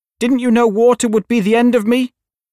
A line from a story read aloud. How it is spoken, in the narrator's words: asked the witch, in a wailing, despairing voice